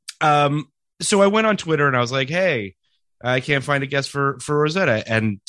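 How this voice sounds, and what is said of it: Congested voice from a cold. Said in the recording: “My voice is a little, I have a cold. It's not COVID, thankfully, but I have a little bit of a cold. ... So my apologies about my voice.”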